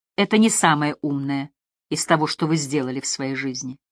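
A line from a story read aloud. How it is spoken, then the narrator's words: Gentle remark. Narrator (Russian): Она мягко заметила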